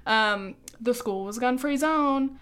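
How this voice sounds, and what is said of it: Mocking put-on accent. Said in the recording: “Sorry for the accent.”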